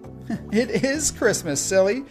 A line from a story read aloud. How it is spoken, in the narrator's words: Skye said with a chuckle